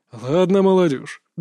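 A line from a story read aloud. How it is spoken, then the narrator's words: Good-natured grumble. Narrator (Russian): добродушно проворчал Лэнда Орн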